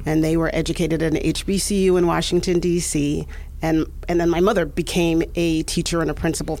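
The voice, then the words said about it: New York accent. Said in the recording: “I can't get rid of this crazy New York accent.”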